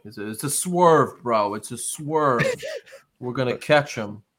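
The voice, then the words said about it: Imitates another person's voice. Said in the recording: “I'm doing my best impression of the who's the Vince Russo”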